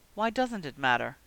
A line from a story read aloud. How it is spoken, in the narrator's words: asked Regulus in a surprisingly small voice, with barely a trace of the usual Black arrogance